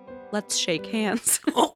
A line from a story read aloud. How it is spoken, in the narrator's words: One boy approached her and very gently said